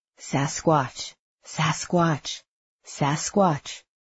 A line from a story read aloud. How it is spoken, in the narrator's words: whispered into it